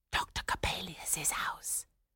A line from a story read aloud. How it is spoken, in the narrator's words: whispered one